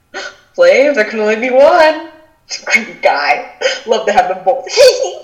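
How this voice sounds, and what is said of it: Imitates another person's voice. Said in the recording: “That was a good impression.”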